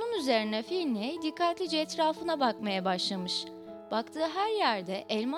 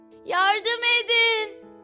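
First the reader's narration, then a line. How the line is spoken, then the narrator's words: Shouting for help. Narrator (Turkish): diye bağırmış Finley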